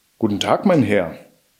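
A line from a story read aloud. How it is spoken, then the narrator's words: Plain. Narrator (German): antwortete Jack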